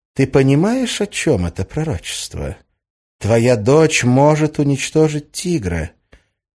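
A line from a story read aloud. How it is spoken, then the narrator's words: Insinuating, coaxing. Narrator (Russian): вкрадчиво произнесла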